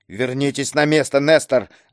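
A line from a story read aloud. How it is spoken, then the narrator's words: Sharp rebuking shout. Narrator (Russian): прикрикнул на него Киск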